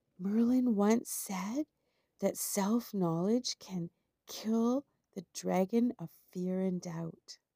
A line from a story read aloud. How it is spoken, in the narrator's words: Rebecca whispered in the knight's ear